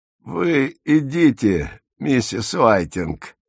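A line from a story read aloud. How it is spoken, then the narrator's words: Strangled voice. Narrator (Russian): произнес Минти придушенным голосом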